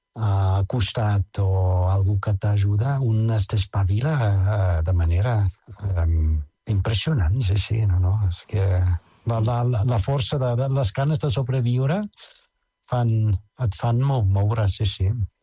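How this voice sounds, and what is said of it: Foreign accent speaking Catalan. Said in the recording (Catalan): “per la veu, diguem-ne, per l'accent, ets d'origen estranger.”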